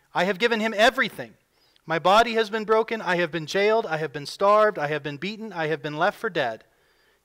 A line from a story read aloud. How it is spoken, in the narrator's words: he went on to exclaim